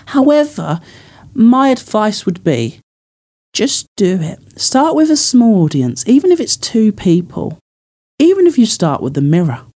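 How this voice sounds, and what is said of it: Essex English accent. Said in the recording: “my Essex accent”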